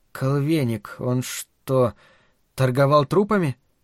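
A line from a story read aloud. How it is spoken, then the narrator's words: Quiet speech. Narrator (Russian): тихо проговорила Марина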